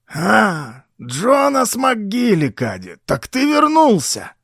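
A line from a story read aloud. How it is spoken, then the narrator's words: Hoarse surprised exclamation. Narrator (Russian): С неподдельным удивлением хрипло воскликнул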